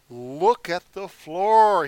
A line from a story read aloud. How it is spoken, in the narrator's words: he said